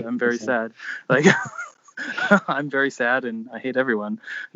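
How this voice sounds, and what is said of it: Impression of a co-host. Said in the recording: “You were trying to do an impression of me”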